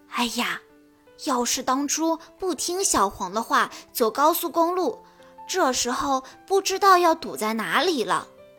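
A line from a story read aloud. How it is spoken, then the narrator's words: Low voice. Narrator (Chinese): 小红低声说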